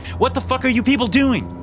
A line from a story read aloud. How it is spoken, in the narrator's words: I yelled